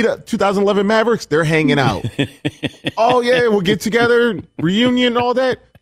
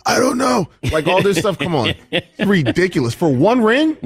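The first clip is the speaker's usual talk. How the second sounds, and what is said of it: Hoarse Doc Rivers impression. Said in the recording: “working on your Doc Rivers impersonation? ... That's pretty good, actually. ... Doc always sounds... like he's been in the postseason in preseason. ... how's your voice so hoarse?”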